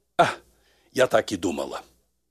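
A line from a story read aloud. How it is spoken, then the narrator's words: Deep sigh, then spoken. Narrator (Russian): глубоко вздохнула и сказала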